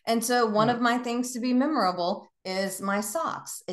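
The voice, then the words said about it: Southern American accent. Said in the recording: “I'm Southern and I let the accent fly.”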